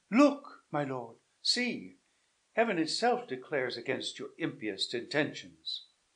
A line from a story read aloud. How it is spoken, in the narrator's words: Isabella, who gathered courage from her situation, cried